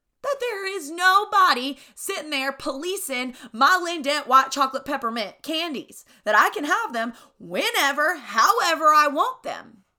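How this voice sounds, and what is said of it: Thick Southern US accent. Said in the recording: “I feel like my redneck just showed. Like I got really thick southern accent right there... when I get a little passionate, it comes out”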